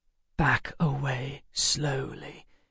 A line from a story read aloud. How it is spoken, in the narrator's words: Emma whispered in my ear